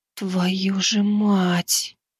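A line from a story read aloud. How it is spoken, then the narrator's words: Shocked whisper. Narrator (Russian): потрясенно прошептала принцесса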